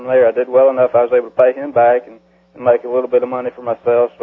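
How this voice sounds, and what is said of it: South Carolina Southern accent. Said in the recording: “you can tell by your accent you're from South Carolina”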